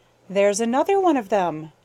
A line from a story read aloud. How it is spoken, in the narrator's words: chuckled Jenny